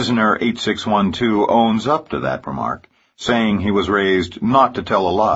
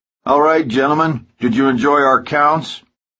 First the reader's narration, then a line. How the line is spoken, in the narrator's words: Hellman yells out to the prisoners